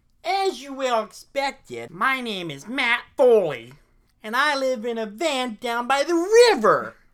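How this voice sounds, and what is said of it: Imitates another person's voice. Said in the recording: “his Chris Farley impression ... I think it's incredible ... I think you got it spot on.”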